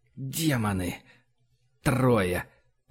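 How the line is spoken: Muttered. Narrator (Russian): пробормотал Фома

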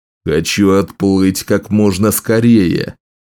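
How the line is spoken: King roaring from ship. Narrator (Russian): проревел король скорбь с носа почти готового корабля

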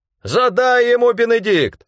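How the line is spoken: Shout. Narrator (Russian): закричал Рэндом

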